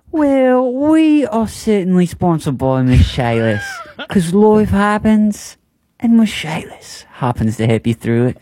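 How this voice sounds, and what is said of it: British accent drifting Australian. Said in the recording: “Do it in a British voice... Sounds well, like Australia... It always goes a little Australian, no matter what accent I'm doing. If I go too long.”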